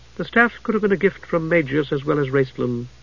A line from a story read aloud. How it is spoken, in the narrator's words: Dalimar said irritably